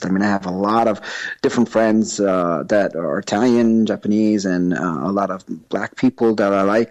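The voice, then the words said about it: New York accent. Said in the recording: “that explains my accent from New York”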